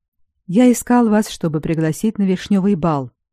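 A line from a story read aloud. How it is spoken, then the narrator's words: Quiet. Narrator (Russian): проговорил он негромко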